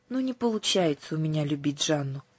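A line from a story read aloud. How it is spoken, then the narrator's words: Sigh. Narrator (Russian): вздохнула Аннушка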